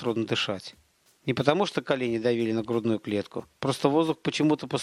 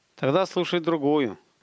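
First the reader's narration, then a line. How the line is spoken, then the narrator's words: Said gloomily. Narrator (Russian): мрачно сказал Столяров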